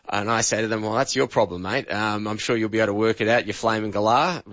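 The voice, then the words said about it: Australian accent. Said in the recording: “Australian accents ... your accent is really hard for us to program to”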